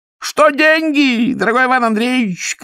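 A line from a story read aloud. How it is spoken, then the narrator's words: Shouting. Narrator (Russian): кричал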